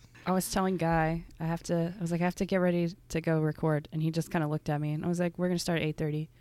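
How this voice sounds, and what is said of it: Raspy, deep morning voice. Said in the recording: “I'm going to sound raspy, but and deep.”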